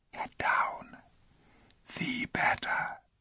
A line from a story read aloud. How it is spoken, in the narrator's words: said in the lowest possible whisper